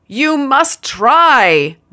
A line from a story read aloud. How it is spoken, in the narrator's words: the other shouted back in tears